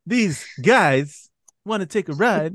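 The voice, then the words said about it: Imitates another person's voice. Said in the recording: “I'm horrible. I can't do a Christopher Walken.”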